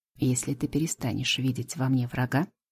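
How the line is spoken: Quiet, breathy, close. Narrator (Russian): произносит тихо, обдавая горячим дыханием мои губы

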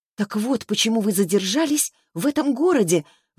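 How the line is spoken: Exclaiming. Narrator (Russian): воскликнула Таисия

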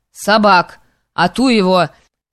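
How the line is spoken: Frenzied shout. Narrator (Russian): неистово крикнул Поплюев

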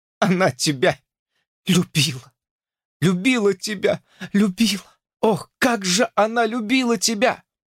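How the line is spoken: Sobbing with grief and sympathy. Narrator (Russian): всхлипывая от утраты и сочувствия, сказала

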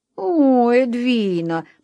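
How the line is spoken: Groaning. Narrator (Russian): простонал Джордж

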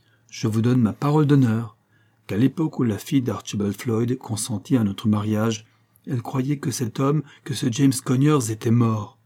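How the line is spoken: Firm, resolute, resonant voice. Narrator (French): dit-il d'une voix ferme et pleine de résolution qui vibrait dans la petite chambre

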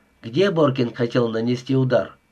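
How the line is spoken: Plain. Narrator (Russian): спросил Джонсон

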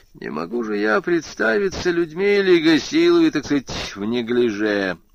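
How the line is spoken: Mocking inner thought. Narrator (Russian): подумав насмешливо

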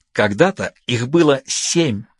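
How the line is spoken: Forced out. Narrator (Russian): выдавила она

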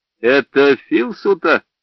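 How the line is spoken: Laughing. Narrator (Russian): я засмеялся

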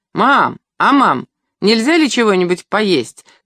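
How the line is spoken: Shouting. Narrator (Russian): крикнул Леонид

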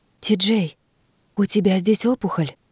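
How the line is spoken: Whisper. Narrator (Russian): прошептала я

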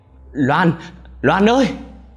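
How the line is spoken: Shouting. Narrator (Vietnamese): Ông Tư hét lên

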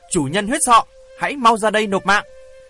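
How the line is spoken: Loud shout, raised voice. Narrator (Vietnamese): hét to lên một tiếng rồi cao giọng nói

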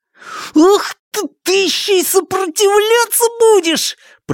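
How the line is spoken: Strained hiss. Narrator (Russian): прошипел Шунь, безуспешно пытаясь освободиться

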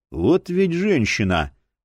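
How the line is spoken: Silent inner grumble. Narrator (Russian): мысленно проворчал Боул

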